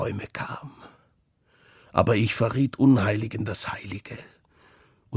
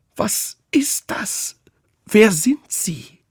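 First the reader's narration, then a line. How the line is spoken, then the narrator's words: Strained, choked call. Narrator (German): rief mit gepresster Stimme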